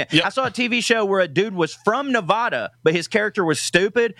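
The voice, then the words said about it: Midwestern American accent. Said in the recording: “my Midwest accent”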